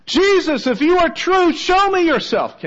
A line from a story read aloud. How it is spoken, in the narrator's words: Without knowing why, cried out